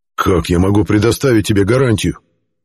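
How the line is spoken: Growling. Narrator (Russian): Зарычал Геррант

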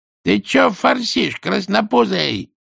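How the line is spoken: Boss shouting. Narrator (Russian): крикнул Скукину начальник

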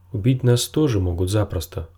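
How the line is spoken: Plain. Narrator (Russian): сказал Джендри

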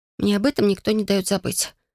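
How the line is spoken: Sleepy mutter. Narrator (Russian): пробормотала сонная

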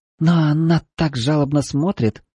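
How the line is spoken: Frightened girl's faltering babble. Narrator (Russian): пролепетала испуганная девушка

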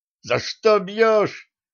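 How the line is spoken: Shrill squeal, spitting blood. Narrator (Russian): выплюнув струю кровавой слюны, взвизгнул замполит

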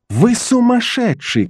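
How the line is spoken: Shouted. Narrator (Russian): крикнул он

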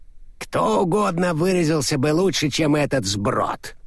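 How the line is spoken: Grumbling from close behind. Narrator (Russian): проворчал Флит прямо у него за спиной

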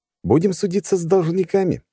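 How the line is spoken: Smug exclamation. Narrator (Russian): воскликнул я с чувством собственного превосходства

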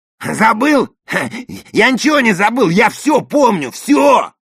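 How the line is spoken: Yelling over the phone. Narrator (Russian): завопил знакомый голос на том конце

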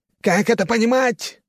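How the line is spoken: Lion-like roar. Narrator (Russian): взревел он, как лев

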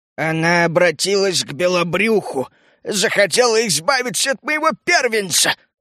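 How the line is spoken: Strained wheeze, agitated old man. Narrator (Russian): Старик переволновался настолько, что из его глотки вырвалось надсадное сипение

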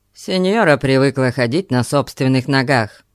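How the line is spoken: Rude, curt. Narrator (Russian): грубо отрезал он

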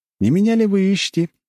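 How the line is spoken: Cheerful. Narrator (Russian): весело говорю им

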